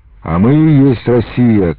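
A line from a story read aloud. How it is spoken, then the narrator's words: Crowd shouting. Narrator (Russian): кричали красногвардейцы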